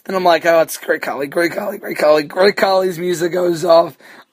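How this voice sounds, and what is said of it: Hoarse, strained, lost voice. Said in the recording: “I apologize for my voice. It's fucking killing me to talk ... my voice is so killing me after Monday ... I apologize if you can't understand a word ... lost my voice”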